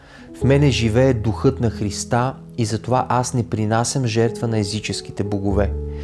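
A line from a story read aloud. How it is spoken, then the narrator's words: Calm declaration. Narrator (Bulgarian): той спокойно заявил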